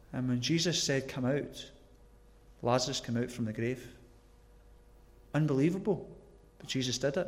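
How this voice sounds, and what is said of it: Broad Glasgow accent. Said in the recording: “my broad Glasgow accent”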